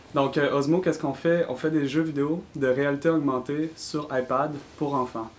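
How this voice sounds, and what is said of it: Quebec French accent. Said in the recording (French): “je suis originaire de la ville de Québec, comme vous pouvez l'entendre avec mon accent”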